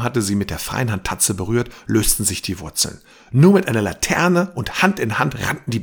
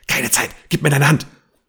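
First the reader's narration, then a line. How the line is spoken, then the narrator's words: Hiss. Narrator (German): zischte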